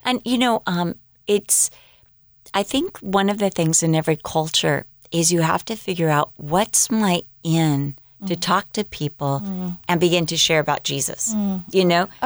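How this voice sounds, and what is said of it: American accent. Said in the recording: “they'd recognize my accent ... oh, you're American”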